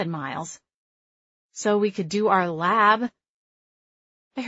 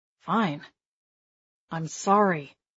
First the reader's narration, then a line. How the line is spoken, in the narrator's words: He said the word through gritted teeth